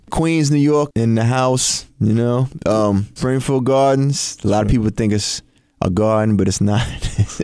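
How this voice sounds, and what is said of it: Thick New York accent. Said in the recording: “His New York accent is thick and undeniable.”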